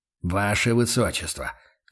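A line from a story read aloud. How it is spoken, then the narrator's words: Patient sigh. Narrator (Russian): терпеливо вздохнул Хауэр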